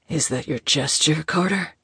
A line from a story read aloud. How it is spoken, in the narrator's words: Moses asked huskily, his voice deep and low